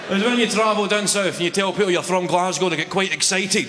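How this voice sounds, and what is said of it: Thick Scottish accent. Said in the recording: “Your accent is really quite strong. You've got a really thick Scotch accent.”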